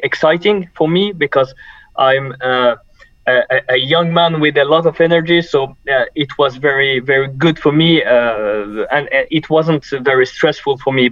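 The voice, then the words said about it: Charming French accent. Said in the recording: “You've got a charming French accent”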